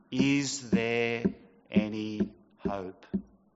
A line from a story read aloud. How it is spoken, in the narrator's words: the question came slowly